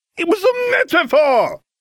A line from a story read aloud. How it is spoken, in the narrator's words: Hermione shouted